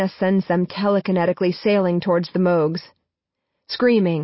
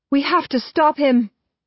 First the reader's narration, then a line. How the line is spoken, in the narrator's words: Marina yells